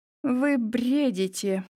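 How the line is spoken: Uncertain, frightened. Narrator (Russian): произнесла неуверенно, а внутри все похолодело

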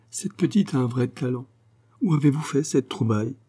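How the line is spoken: Exclaimed. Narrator (French): s'écria-t-elle

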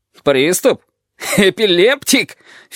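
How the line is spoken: Unpleasant guffaw. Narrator (Russian): Филин раздражается неприятным хохотом

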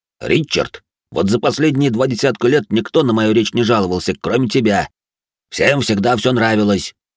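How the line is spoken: Snapping retort. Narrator (Russian): огрызнулся

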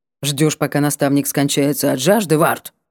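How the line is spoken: Offended grumble. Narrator (Russian): Буркнул он обиженно

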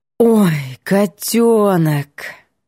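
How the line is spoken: Drawn out, deep sigh. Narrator (Russian): Протянула с грудным вздохом

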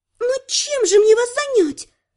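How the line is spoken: Maid exclaiming. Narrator (Russian): воскликнула горничная

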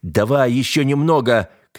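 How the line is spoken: Shouting over loud noise. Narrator (Russian): кричал он, почти не слыша собственного голоса

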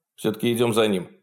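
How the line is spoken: Calm captain's voice. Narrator (Russian): спокойно сказал капитан

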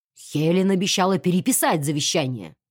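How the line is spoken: Growled. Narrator (Russian): прорычал полковник Хьюз

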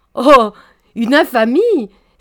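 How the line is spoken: Honeyed exclamation. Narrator (French): s'écria Mademoiselle Chouin, retrouvant sa voix mielleuse

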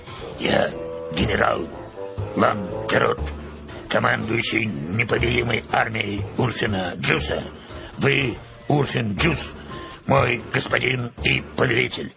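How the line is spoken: Hoarse but clear. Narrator (Russian): Деревянная фигура хрипло, но четко повторила

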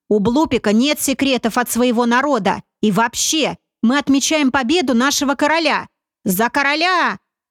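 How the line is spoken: Yelled. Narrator (Russian): заорал Слущ

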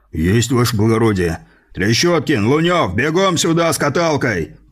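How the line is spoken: Loud bark. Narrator (Russian): гаркнул фельдшер

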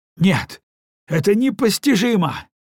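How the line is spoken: Exclamation. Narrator (Russian): воскликнул отец

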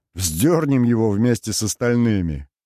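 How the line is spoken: Chuckling. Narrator (Russian): хохотнул Мика

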